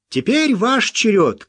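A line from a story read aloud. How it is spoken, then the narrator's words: Shouted. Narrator (Russian): крикнул он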